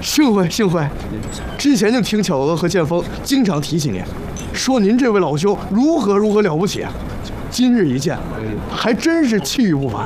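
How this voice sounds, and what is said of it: Northeastern Chinese accent. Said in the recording (Chinese): “听你的口音，东北人”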